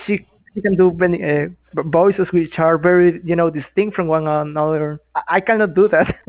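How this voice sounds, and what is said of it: Speaks with a non-native accent. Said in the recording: “I have my accent still right now”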